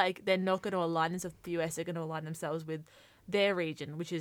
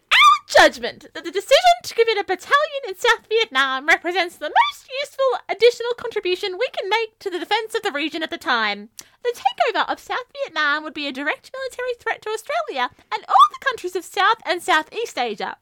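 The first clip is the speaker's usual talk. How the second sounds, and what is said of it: Imitates another person's voice. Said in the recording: “here's my best impression of Robert Menzies”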